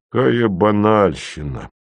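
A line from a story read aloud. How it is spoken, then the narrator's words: Grumble. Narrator (Russian): проворчал Ви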